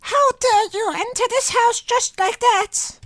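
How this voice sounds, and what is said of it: Witch character voice. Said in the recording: “Do you do a good witch voice? ... I might be too sick to do a good witch voice, but maybe I'm just sick enough.”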